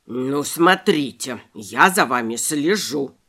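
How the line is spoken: Grumbling rabbit. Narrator (Russian): проворчал кролик

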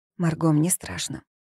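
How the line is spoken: Whisper. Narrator (Russian): прошептала Волга

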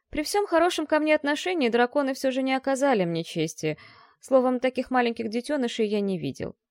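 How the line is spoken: Sighing court mage. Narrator (Russian): вздохнул придворный маг

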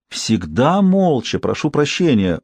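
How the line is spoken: Agitated innkeeper confirming. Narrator (Russian): взволнованно подтвердил трактирщик

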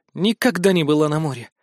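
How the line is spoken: Sad sigh. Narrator (Russian): грустно вздохнула Мэри

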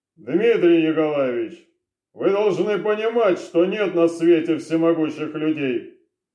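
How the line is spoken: Dry tone. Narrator (Russian): Сухим тоном проговорил он

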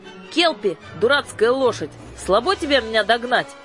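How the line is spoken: Frightened scream in Russian. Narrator (Russian): закричала с перепугу по-русски

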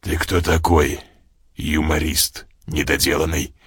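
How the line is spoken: Growled by guard. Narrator (Russian): зарычал охранник

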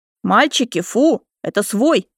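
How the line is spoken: Stern command. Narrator (Russian): грозно скомандовала я

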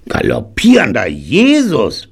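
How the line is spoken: Startled bark. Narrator (German): bellte er und fuhr hoch

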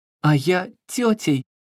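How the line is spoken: Joyful. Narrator (Russian): радостно Маша

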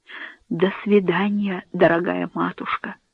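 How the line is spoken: Barely audible whisper. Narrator (Russian): прошептал он едва слышным голосом

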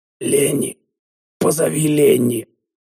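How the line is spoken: Strained hoarse croak. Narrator (Russian): С трудом приоткрыв рот и заставив язык шевелиться, я прохрипел

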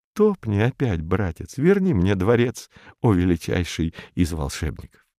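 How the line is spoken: Breathless whisper. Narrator (Russian): перевел дух и шепнул мотыльку

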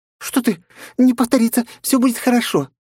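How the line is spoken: Squeaked. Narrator (Russian): пискнула чудачка

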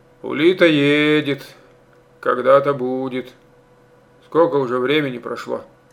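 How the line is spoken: Perfunctory grumble. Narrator (Russian): Ворчал Стародубцев так, для порядку

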